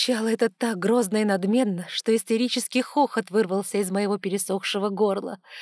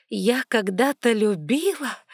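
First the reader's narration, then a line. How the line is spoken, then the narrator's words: Hoarse, choking with laughter. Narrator (Russian): Задыхаясь от смеха, прохрипела я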